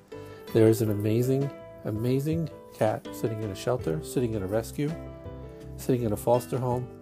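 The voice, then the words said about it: Brooklyn Jewish accent. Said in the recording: “my Brooklyn Jewish accent”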